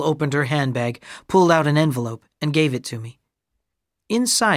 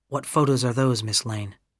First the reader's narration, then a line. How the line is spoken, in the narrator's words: asked quietly